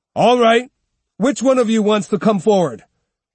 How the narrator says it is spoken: Musashi, convinced that the ronin were all mouth and no fight, shouted

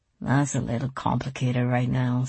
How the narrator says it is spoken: Celia mumbled, her words muffled by her hair

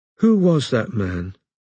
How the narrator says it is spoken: asked Robin sleepily

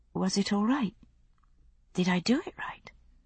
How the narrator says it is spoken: She sounded faintly anxious

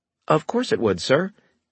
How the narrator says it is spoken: he said brightly

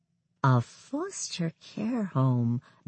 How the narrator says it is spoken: Binky said softly, as if thinking it through

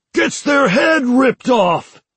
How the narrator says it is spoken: Five shouted

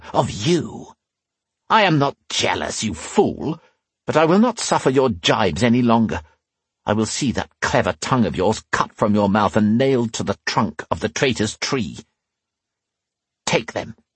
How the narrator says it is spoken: he hissed

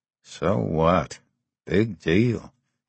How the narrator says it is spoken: Andy muttered to himself

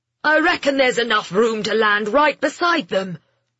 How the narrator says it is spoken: Jeremy shouted

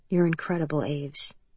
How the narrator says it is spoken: Atlas said softly

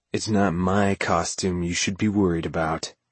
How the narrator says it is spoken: spit out in a low, low voice from that boy-man body

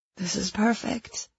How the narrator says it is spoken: I murmured, the words lost in the wind

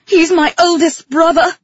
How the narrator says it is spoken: she yelled

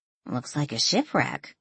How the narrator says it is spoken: Danielle muttered

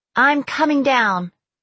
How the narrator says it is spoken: I shouted

